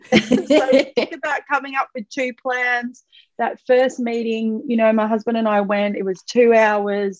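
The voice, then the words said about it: Overwhelmed, stressed-sounding voice. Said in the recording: “you can hear in my voice, I'm an overwhelmed lady”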